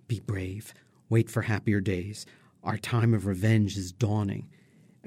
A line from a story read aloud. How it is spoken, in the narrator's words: Amonasro manages to take Aida aside to whisper